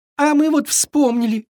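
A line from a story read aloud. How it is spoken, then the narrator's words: Sobbed. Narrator (Russian): всхлипнул Триша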